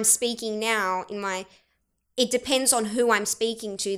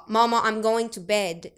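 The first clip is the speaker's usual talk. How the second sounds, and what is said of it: Arabic-inflected Aussie accent. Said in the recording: “it's a fake Arabic Aussie accent ... See how the accent is the same”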